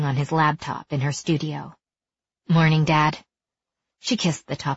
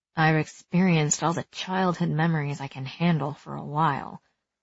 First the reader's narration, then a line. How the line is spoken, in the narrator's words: she muttered under her breath